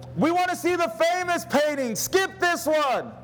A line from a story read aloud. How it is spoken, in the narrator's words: a voice in the back of the room shouted